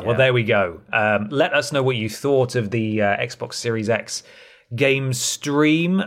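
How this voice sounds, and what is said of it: Slightly strained, fading voice. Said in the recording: “I'm losing my voice a little bit today”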